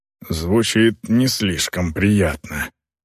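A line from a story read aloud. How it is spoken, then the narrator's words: Muffled mutter. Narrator (Russian): пробормотал Сайвет из-под своих пут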